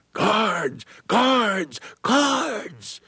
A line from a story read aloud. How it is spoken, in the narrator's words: one freedom rider yelled